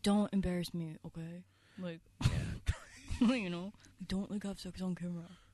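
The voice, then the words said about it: Imitates another person's voice. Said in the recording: “He also doesn't talk like that, but that's my impression.”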